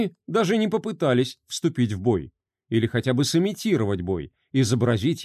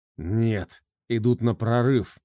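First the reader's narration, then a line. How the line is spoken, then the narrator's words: Displeased growl. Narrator (Russian): прорычал недовольный Андрюха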